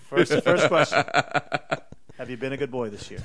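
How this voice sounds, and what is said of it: Santa with New York gangster accent. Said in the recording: “Did Santa get a New York gangster accent?”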